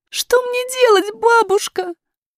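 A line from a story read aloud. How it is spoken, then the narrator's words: Muffled sobbing. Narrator (Russian): зарыдала принцесса, прижимаясь лицом к бабушкиной груди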